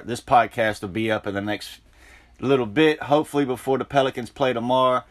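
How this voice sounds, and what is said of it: Noticeable Southern regional accent. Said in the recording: “I love your accent. That's a couple years in the South, so I don't hear the accent the same as I used to anymore”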